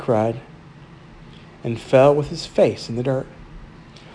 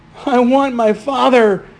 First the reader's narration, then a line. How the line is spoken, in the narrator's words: he screamed over and over